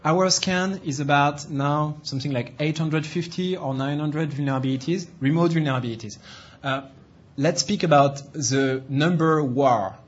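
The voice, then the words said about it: Non-native English accent. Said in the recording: “Sorry for the accent. I'm trying to improve it.”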